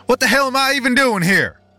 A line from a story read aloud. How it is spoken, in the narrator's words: shouted into the empty house